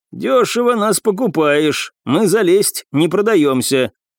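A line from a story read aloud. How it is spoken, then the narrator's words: Grumbling remark. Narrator (Russian): один из них ворчливым тоном заметил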